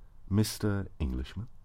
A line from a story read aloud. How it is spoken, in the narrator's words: you offered quietly